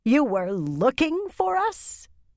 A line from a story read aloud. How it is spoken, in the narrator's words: Yukiri almost growled